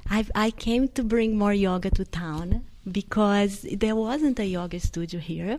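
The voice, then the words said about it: Brazilian-accented English. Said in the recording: “I was born in Brazil ... the accent gets worse each day”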